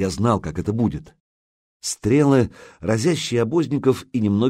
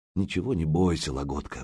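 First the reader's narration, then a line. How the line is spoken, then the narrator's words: Mumbling. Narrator (Russian): бормочет Илья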